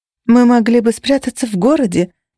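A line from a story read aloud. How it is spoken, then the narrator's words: Sighing. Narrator (Russian): вздохнула я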